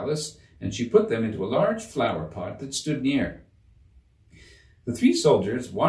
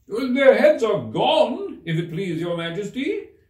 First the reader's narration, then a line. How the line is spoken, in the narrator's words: the soldiers shouted out in reply